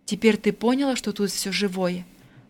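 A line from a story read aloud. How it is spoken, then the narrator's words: Gentle continuation. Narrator (Russian): ласково продолжила Надежда Дмитриевна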